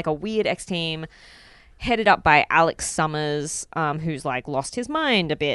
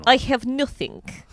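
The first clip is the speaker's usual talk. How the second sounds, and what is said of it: Put-on Russian accent. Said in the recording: “That's my Russian accent.”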